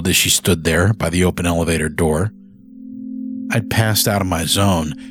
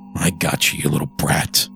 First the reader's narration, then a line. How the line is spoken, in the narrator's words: I growled under my breath